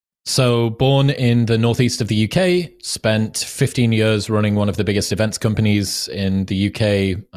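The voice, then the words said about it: Cool accent. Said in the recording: “the cool accent”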